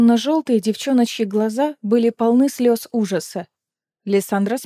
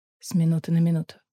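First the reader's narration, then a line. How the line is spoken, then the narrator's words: Near whisper. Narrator (Russian): почти шепотом сообщил Эдион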